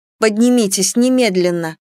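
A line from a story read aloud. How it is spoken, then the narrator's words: Exclaiming. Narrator (Russian): воскликнула я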